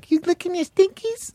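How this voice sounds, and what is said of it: High-pitched woman's voice. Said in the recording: “I talk like a high woman ... worst impression of a gay man ... like high, hey, high vocally”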